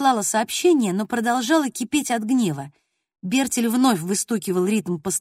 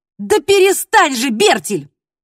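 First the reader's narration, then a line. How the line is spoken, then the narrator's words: Irritated shout. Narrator (Russian): Раздраженно крикнула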